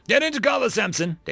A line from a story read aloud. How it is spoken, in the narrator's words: Davies shouted